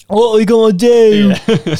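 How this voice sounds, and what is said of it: Bad put-on Newcastle accent. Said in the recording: “that was a really offensive accent... just bad Newcastle”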